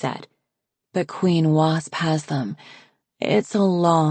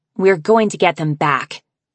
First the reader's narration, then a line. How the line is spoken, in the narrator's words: Sundew said fiercely